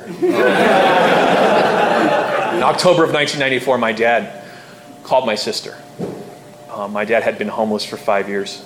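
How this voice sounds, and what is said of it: Choked-up, emotional voice. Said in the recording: “get choked up when I talk about this”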